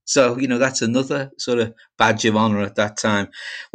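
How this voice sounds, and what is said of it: Liverpool accent. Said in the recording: “your accent ... I speak with a Liverpool accent”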